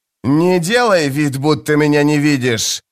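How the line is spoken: Barked. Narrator (Russian): рявкнул Мескер

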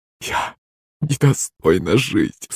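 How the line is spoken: Sobbing woman. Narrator (Russian): всхлипывала рыжая красотка

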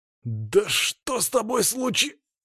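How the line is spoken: Forced out, strained. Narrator (Russian): выдавил я из себя

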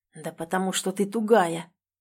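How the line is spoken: Whisper through teeth. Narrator (Russian): Бросаю шепотом сквозь зубы

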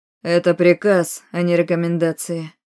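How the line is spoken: Icy tone. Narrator (Russian): произнес Арманд ледяным тоном

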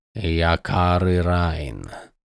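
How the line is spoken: Hissed. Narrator (Russian): прошипел Крас

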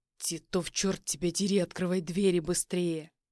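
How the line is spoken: Growl. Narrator (Russian): рычал я

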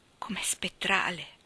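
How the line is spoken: Murmur. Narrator (Italian): mormorò

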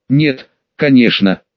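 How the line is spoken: Snorted. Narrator (Russian): хмыкнул Темор

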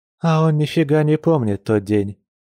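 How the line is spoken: Sad wry smile. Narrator (Russian): печально усмехнулась медведица

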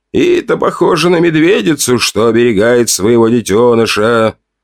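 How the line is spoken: Sighing. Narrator (Russian): Вздохнул Сови

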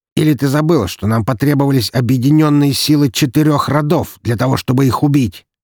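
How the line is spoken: Nearly shouting. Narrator (Russian): Последние слова он уже едва не выкрикнул

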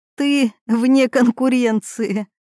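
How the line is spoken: Laughing. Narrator (Russian): рассмеялась она

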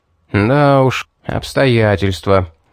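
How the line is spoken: Displeased grumble. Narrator (Russian): недовольно пробурчал

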